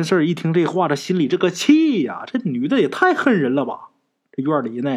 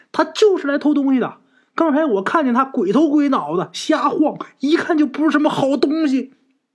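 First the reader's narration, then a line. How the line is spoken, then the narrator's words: Woman shouting. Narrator (Chinese): 在院里关着的那女的呀，就喊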